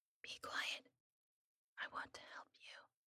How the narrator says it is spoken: whispered in my ear

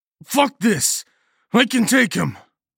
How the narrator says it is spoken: I snarled

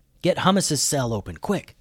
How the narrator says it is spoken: whispered Alex

